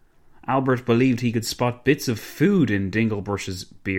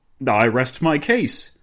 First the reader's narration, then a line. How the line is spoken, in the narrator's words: Dinglebrush exclaimed